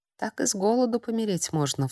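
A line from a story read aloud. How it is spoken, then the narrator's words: Sighed. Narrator (Russian): вздохнула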